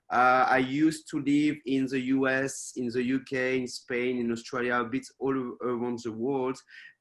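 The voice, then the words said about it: French accent in English. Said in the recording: “so you can hear my accent. So even if I'm based in Taiwan, I'm not from Taiwan originally, I'm from France.”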